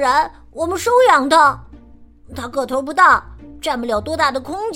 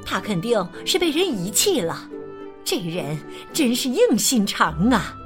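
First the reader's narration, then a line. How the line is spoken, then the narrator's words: Plain. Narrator (Chinese): 我趁机说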